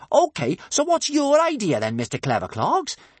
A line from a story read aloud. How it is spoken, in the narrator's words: said Kamikaze crossly